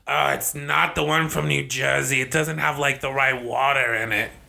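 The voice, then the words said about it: Put-on New York-style accent. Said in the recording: “That was a great accent. ... I don't think that's a Jersey accent. ... It was a disgruntled bagel patron accent. ... From, like, New York.”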